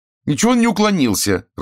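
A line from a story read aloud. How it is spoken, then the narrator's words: Irritated. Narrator (Russian): раздраженно отвечала Хельга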